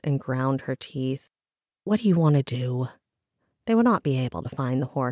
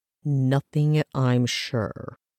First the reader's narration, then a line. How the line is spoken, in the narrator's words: he growled